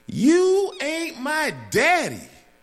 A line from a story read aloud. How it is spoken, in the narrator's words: she screamed